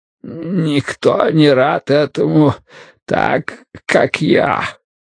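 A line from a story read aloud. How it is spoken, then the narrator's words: Wheeze. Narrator (Russian): просипел Вудвард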